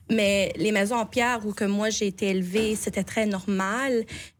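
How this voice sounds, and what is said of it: Acadian French accent. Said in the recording (French): “vous pouvez attendre mon petit accent acadien”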